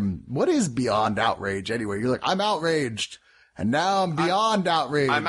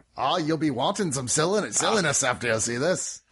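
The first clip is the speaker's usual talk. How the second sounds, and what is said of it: Jumbled mix of several accents. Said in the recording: “What country are you from? ... That was like six accents merged into one ... That was an accentident ... It is the mega accent”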